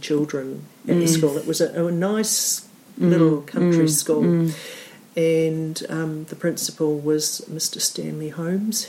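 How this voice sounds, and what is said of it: New Zealander with slightly English accent. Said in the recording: “my slightly English accent ... The number of times I've been asked what part of England I come from ... sort of fifth, sixth generation New Zealander ... they spoke very correctly”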